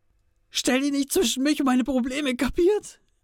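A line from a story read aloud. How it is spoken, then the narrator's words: Shout in broken voice. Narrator (German): schrie er mit gebrochener Stimme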